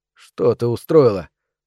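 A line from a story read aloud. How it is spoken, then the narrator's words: Trembling voice. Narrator (Russian): спросил Роберт дрожащим голосом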